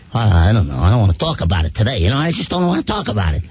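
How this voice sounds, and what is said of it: Tony Soprano mobster voice impression. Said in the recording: “the best Tony Soprano impersonation ... That's a hard voice.”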